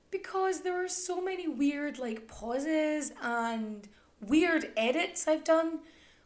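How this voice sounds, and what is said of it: Mixed Irish and Scottish accent. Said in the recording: “my accent can sort of weave in and out between sort of Irish and Scottish and some weird no man's land in between the two”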